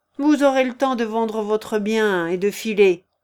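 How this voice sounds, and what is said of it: Contemptuous grumbling tone. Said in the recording (French): “grommela le jeune homme avec un accent de mépris”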